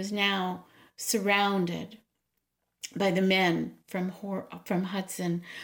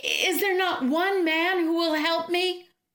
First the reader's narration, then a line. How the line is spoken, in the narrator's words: Desperate, the ogress called out